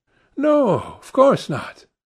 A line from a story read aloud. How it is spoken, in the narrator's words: cried Dorian